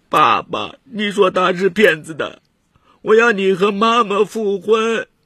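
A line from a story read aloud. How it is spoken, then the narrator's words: Loud sobbing. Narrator (Chinese): 磊磊大哭道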